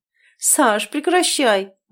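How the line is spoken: Grumbling while laughing. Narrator (Russian): бурчу, смеясь

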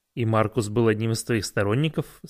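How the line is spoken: Plain. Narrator (Russian): спросил я

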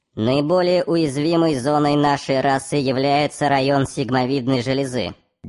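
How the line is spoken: Muffled, low voice. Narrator (Russian): глухо начал Булратти

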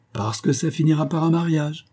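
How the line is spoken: Shouted. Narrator (French): cria-t-elle

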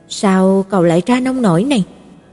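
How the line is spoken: Sighing. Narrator (Vietnamese): thở dài nói

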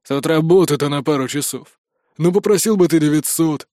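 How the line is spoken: Deep bass voice. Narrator (Russian): пробасил второй

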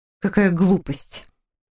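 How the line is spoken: Nervous snort. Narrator (Russian): нервно фыркнула Хильда

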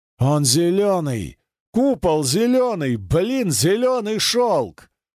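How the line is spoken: Roaring like wounded caveman. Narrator (Russian): раненым пещерником взревел Пикачев

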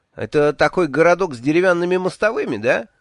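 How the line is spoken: Cheerful question. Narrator (Russian): весело спросил

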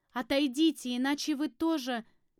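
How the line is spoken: Shouted. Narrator (Russian): крикнула

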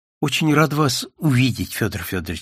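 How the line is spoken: Catching breath. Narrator (Russian): сказала Пикина, несколько раз глубоко вздохнув перед этим, не от печали, а чтобы отдышаться

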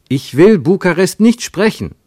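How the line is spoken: Calling out. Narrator (German): rief Ernst

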